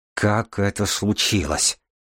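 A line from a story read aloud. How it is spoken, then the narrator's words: Furious, through gritted teeth. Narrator (Russian): процедил сквозь зубы бледный от ярости Баренц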